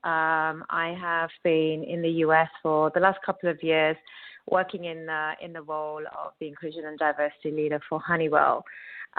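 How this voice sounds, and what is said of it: British accent. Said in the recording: “as everyone can tell from my accent, originally from the UK”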